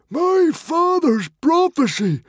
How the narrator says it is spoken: screamed, his head in his hands

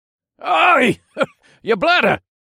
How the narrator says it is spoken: Cliff barked out a laugh

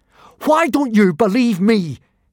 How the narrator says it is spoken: He asked furiously

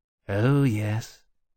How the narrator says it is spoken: Temeraire said drowsily

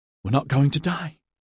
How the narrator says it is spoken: she gasped

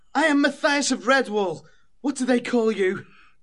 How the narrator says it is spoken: the squirrel laughed

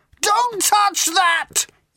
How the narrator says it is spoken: yelled Ford

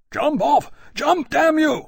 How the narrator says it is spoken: Lawrence bellowed at the men

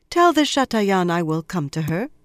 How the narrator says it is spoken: said calmly

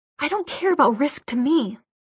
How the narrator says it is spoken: he hissed

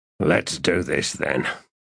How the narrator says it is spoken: said Ansi in a growl

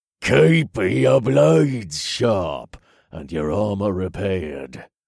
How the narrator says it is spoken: Jax grunted in an ominous tone

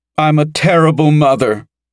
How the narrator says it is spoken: Mara exclaimed, almost in tears

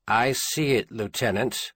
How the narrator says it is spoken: Garvey said, and he was pleased and more than a little surprised by how calmly he managed to speak

